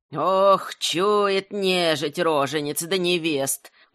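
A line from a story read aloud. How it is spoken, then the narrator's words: Bitter muttering. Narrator (Russian): горько бормотала Бажана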